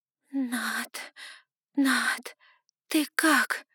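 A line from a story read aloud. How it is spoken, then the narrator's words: Hoarse wheeze. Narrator (Russian): прохрипела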